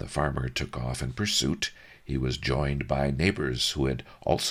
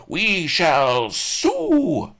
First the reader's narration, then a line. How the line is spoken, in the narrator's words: howled Ma the grub